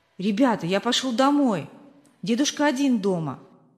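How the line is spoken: Plain. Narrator (Russian): сказал он

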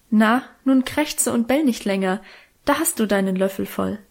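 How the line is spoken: Laughing, fond. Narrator (German): Mutter lachte manchmal und sagte

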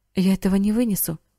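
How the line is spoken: Choked exclamation. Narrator (Russian): воскликнул он сдавленным голосом

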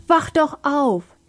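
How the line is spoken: Screamed. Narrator (German): schrie Sam

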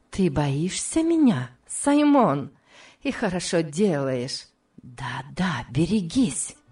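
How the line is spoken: Hissing whisper close by. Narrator (Russian): произнесла свистящим шепотом у самого его уха

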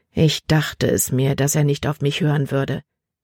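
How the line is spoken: Plain. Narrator (German): sagte er

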